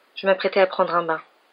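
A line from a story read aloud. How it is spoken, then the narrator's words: Young woman, toneless voice. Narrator (French): dit la jeune femme d'une voix blanche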